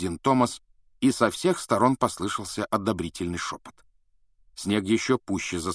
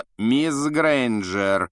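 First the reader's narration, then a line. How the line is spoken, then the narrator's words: Icy rebuke. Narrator (Russian): ледяным голосом осадил Гермиона Снег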